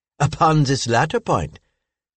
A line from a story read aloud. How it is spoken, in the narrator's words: said Madame Lalande laughingly